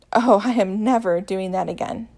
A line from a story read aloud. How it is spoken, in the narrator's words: he scoffs